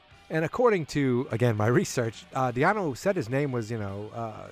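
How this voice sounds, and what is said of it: Usual voice. Nothing is said of it.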